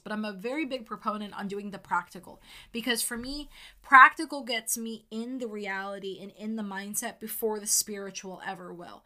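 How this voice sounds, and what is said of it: Passionate, emphatic delivery. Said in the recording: “you can hear the passion in my voice”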